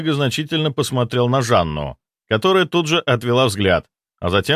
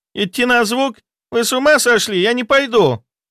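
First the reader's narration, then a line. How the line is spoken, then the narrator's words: Shrill shriek. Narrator (Russian): взвизгнула Жанна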